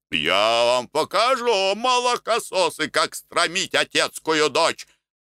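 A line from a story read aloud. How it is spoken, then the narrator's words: Yelling. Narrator (Russian): орал Никитич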